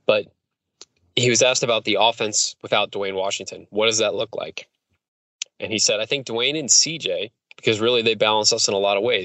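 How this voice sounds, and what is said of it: Hoarse, strained voice. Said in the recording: “As you can tell, I'm losing my voice again”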